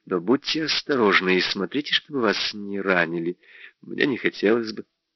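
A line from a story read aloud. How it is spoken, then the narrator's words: Uncertain speech. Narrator (Russian): сказала неуверенно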